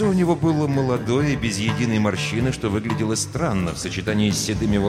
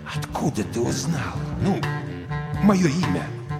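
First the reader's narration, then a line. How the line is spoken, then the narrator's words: Near whisper. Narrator (Russian): Крейвен почти прошептал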